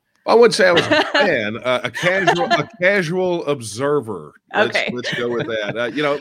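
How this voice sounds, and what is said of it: Texan accent. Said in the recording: “my accent ... it's like a real Texan”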